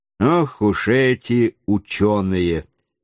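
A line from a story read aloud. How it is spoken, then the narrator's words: Calm. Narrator (Russian): спокойно промолвил майор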